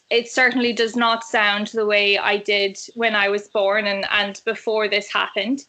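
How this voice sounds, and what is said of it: Celtic, Irish-sounding accent. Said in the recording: “change my accent. So I am actually Australian. So I think a lot of the cadence of my voice has changed. The accent seems to be much more of a Celtic and Irish kind of sound to us now ... even like the pitch in the tone of my voice has changed somewhat”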